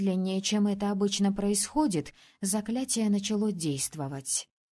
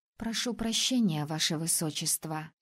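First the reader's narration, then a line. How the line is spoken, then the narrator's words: Whispered. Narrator (Russian): шепнула напоследок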